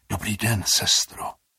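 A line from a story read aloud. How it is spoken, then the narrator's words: Whispered. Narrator (Czech): zašeptal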